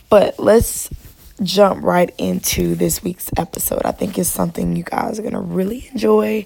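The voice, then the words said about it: Raspy, worn-out voice. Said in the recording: “my voice is raspy ... my voice has been gone since the Drake concert, like, over 2 weeks ago ... my voice is not repaired since then”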